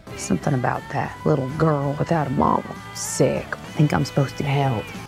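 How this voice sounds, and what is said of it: Thick southern American accent. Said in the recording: “Hillary Swank adopts a thick southern accent”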